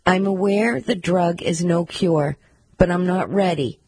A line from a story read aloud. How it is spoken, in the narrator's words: said